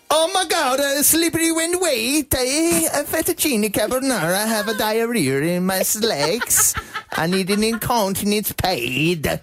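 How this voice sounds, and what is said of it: Poor put-on Italian accent. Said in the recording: “I'm not very good at the accent.”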